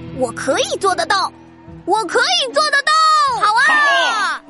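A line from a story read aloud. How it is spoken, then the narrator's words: Shouting. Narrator (Chinese): 德鲁喊道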